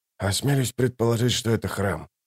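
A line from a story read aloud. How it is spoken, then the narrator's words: Muttering. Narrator (Russian): пробормотал Ток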